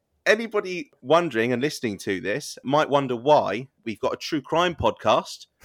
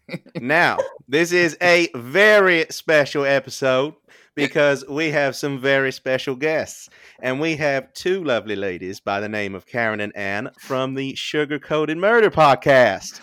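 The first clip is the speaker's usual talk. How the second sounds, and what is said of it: Put-on Deep South American accent. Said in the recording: “I feel like it's always deep south when you ever ask a British person to do an American accent.”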